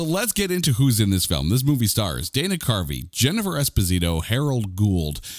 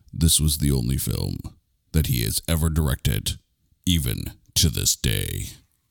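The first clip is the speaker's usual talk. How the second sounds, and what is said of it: Menacing, dramatic voice. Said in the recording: “in my menacing voice”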